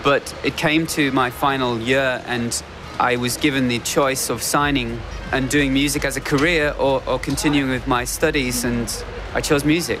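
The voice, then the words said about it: British accent, 'year' sounds like 'yeah'. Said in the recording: “a certain British accent where they don't say year, they say yeah”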